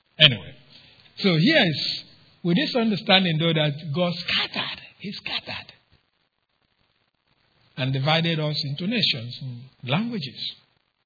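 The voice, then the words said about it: Noticeable non-native English accent. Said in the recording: “that's why I speak with an accent to you. Some of you have problem understanding me ... my accent”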